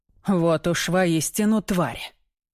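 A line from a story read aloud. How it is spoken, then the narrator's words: Growling. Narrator (Russian): С рычанием повторяет лорд Фенвуд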